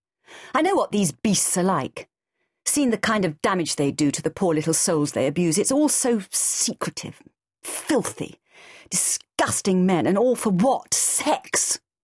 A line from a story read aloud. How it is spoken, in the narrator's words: She spat out the word like a vile taste